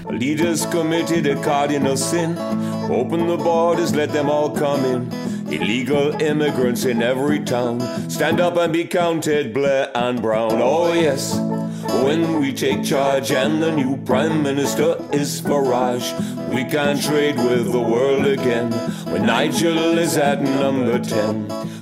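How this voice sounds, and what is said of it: Singing in put-on Caribbean accent. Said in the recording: “Mike Reed, the former DJ, recorded a song about UKIP in a Caribbean accent.”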